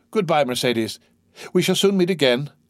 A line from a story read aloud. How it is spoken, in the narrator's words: he called out